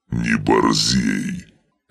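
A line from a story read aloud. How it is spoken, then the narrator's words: Barking. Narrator (Russian): рявкнул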